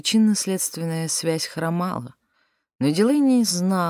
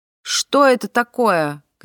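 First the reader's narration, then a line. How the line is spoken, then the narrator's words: Shouted. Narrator (Russian): крикнула она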